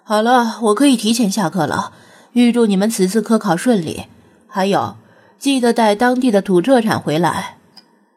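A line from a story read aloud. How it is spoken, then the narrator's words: Laughing. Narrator (Chinese): 罗老师笑道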